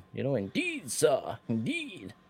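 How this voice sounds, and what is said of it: Put-on American accent, sounds Southern. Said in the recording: “I can do an American accent, but say folks say it sounds off as southern.”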